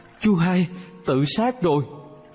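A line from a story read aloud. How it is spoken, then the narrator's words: Terrified scream. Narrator (Vietnamese): có người kinh hoàng thét lên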